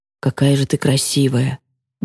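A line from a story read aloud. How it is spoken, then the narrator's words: Mumbling. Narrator (Russian): Бормочет он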